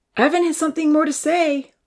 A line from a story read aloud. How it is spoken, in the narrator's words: Uncle Louis shouted